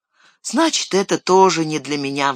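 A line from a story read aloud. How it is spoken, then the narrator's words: Sighing. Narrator (Russian): вздохнул Пиппин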